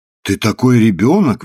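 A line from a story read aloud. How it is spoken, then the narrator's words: Exclaimed. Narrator (Russian): воскликнула Гефсиба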